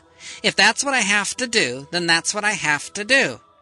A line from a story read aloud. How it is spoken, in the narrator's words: snapped Hannah